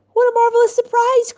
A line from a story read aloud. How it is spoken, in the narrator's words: cried the delighted Rav